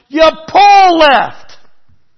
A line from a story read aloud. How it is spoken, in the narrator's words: this lady next to me yells